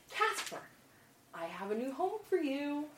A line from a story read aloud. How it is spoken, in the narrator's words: whisper, excitedly